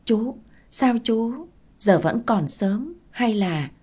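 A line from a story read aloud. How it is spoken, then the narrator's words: Stammering. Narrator (Vietnamese): tôi lắp bắp nói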